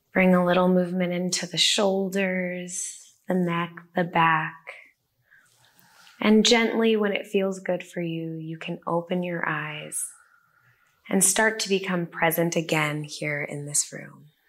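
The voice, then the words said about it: Soft, soothing guided-meditation voice. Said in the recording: “Your voice is so soothing.”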